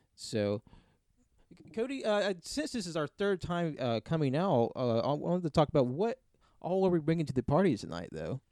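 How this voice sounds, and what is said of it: Sports announcer voice. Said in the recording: “I really like the announcer voice. Like I feel like we're at a sport, like a sporting event.”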